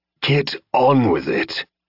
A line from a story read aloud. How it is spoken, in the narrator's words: Burgundy growled